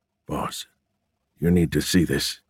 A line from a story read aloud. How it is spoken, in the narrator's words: he said quietly